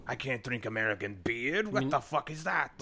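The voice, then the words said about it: Deliberately bad French accent. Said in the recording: “That's the terrible French accent.”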